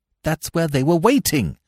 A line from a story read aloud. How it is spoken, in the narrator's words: I cried excitedly